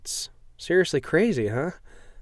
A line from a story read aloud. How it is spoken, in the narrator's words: Emma giggles, looks embarrassed